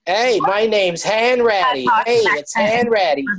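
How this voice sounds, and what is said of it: Tom Hanks's bad Boston accent. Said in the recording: “Tom Hanks in Catch Me If You Can ... It's supposed to be Boston. It's horrific. He's all over the road with it.”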